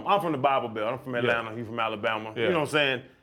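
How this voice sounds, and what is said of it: Southern country twang. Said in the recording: “people mess with me all the time, how country I am ... your dialect, because of your twang and your voice ... because you talk like you're from the South”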